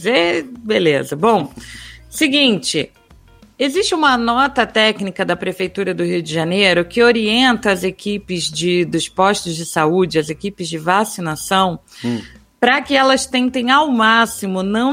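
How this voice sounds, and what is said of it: Carioca Rio de Janeiro accent. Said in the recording (Portuguese): “aproveitando o meu sotaque carioca do Rio de Janeiro”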